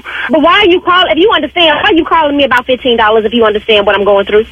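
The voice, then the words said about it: Raised, angry voice. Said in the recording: “Why are you raising your voice at me? Why are you raising? Did you just raise your voice at me?”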